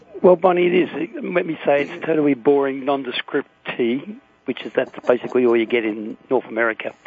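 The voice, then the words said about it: Speaks with a noticeable accent. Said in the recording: “I hear the accent.”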